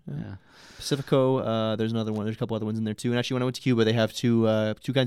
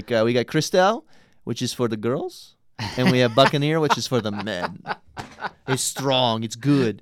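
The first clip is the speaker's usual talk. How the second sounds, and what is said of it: Put-on Russian accent. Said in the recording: “I'm doing a Russian accent for Cubans”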